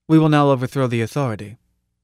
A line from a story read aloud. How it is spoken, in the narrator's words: he said blandly